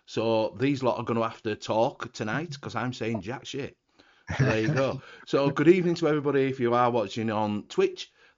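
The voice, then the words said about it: Hoarse, sore-throated voice. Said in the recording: “I've got a little bit of a sore throat, ... I can't really say a great deal.”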